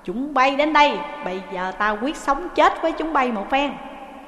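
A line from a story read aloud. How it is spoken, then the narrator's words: Shouting. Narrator (Vietnamese): Trí Thâm liền quát lên rằng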